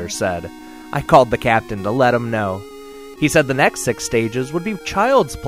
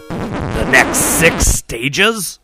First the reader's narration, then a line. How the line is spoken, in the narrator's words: Jack asked with a groan